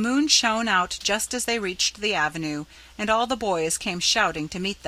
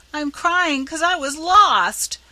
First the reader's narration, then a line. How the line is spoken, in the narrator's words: bawled Rob, trying to squeeze out a tear and failing entirely